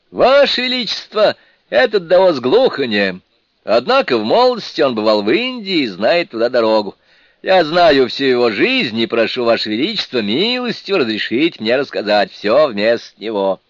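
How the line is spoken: Loud confident declaration. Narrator (Russian): прекрасный великий мудрец уверенно громко сказал

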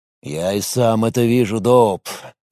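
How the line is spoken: Sighing. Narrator (Russian): вздохнул Лис

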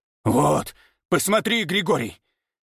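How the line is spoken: Hoarse rasp. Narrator (Russian): Прохрипел

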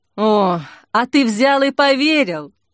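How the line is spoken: Impatient sigh. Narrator (Russian): Зоя нетерпеливо вздохнула

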